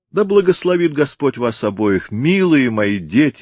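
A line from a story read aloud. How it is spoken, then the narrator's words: Exclaiming. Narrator (Russian): воскликнул Сэмпсон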